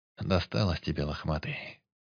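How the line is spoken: Calm. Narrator (Russian): спокойно произнес он

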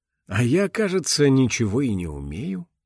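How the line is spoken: Sigh. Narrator (Russian): вздохнул Ирая

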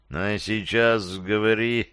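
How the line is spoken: Through gritted teeth. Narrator (Russian): начал цедить сквозь зубы повелитель

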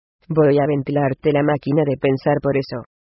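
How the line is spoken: Plain. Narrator (Spanish): dijo Boyrion

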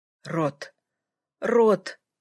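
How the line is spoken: Moaning. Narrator (Russian): простонал он

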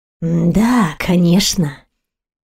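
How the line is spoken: Near purr. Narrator (Russian): почти промурлыкал брат императора

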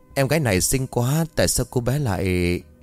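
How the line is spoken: Sad sigh. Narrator (Vietnamese): Liệu Tử Ninh buồn bã thở dài, nói

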